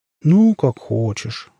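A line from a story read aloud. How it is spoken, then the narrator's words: Disappointed drawl. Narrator (Russian): разочарованно протянула она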